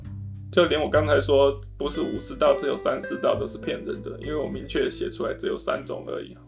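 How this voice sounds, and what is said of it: Voice trailing off quieter. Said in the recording (Chinese): “越讲越小声，有点心虚这样子”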